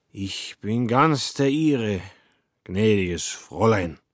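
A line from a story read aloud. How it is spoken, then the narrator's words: Drunken slurring. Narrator (German): lallte er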